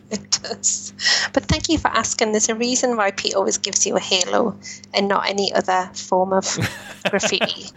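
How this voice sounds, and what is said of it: Speaks with a noticeable regional accent. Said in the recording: “from my accent, you can probably tell”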